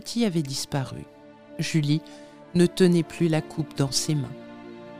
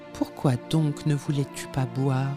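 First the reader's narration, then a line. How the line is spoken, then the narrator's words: Plain. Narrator (French): dit-elle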